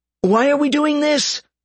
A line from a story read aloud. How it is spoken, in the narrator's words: Gerald called out, annoyed at this change of plans